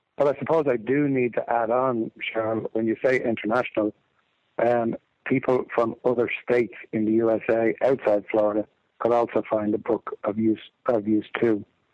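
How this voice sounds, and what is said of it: Irish accent. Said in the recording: “I'm the one with the funny accent talking to you originally from Ireland”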